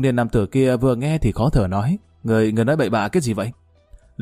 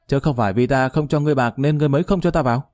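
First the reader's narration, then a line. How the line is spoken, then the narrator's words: Sudden loud cry. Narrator (Vietnamese): Lý Kỳ bỗng lớn tiếng kêu lên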